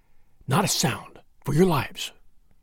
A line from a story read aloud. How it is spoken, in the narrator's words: McMurdo whispered